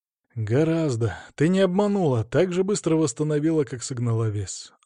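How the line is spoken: Breathed out. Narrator (Russian): выдохнул я

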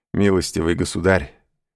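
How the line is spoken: Englishman's laughing objection. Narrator (Russian): возразил, смеясь, англичанин

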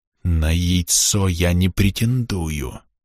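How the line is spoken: Insincere hiss. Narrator (Russian): явно неискренне прошипел магистр

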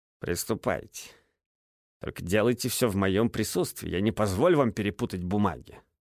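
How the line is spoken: Stern. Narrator (Russian): строго ответил Смит

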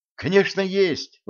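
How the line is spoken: Exclaim. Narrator (Russian): воскликнул Джим

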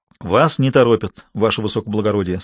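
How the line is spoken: Calm. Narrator (Russian): спокойно сказал Азаров

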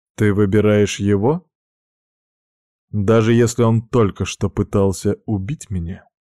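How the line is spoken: Very calm. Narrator (Russian): Сказано это было настолько спокойно

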